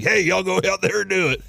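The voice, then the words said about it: Imitated sports coach voice. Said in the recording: “That's a pretty good coach impression.”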